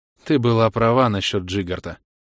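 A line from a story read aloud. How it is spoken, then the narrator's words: Sighing. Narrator (Russian): вздохнул принц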